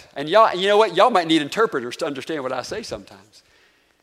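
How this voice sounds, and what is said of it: Southern twang accent. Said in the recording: “my dialect is Nokelana, right? Southern twang, y'all, right? That's my dialect.”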